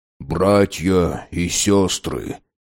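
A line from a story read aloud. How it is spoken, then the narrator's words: Muttering. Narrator (Russian): пробормотал Дэйн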